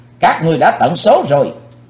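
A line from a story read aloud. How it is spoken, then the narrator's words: Thunderous shout. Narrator (Vietnamese): tiếng quát cuồn cuộn bốn bề như lôi điện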